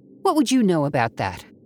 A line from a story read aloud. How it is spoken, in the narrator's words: Abby snapped